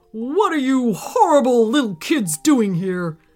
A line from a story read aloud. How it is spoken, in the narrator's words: he bellowed from underneath a big, bushy brown mustache